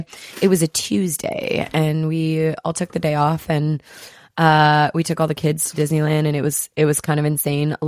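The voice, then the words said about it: Hoarse, strained voice. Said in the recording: “my voice is still gone ... both of our voices are still coming back from screaming”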